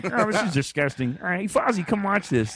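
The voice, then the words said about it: Kermit the Frog character voice. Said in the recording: “Kermit the Frog ... Do you do his voice?”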